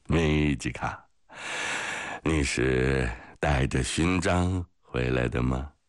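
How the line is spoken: Drunken laughing question. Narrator (Chinese): 潘特莱醉醺醺地笑着问米吉卡

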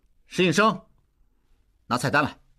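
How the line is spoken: Shouted. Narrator (Chinese): 应济喊

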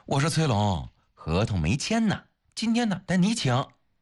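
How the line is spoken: Laughing. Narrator (Chinese): 方薇也笑了

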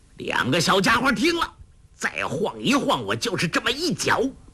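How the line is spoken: Loud bellow. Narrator (Chinese): 欧阳锋高声喝道

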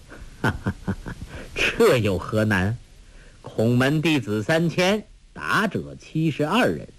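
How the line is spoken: Laughing. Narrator (Chinese): 那书生笑道

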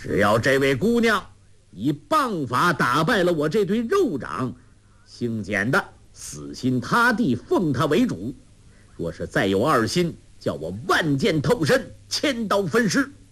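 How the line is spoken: Loud elder's shout. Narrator (Chinese): 简长老大声叫道

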